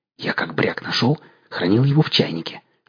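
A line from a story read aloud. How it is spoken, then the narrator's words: Conspiratorial whisper. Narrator (Russian): заговорщицким шепотом начал объяснять князь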